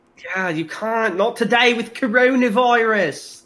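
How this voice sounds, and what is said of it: Scolding exaggerated British accent. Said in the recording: “the fucking scolding voice always has to be, like, me being super British ... That's just me mimicking you, and I guess you're British”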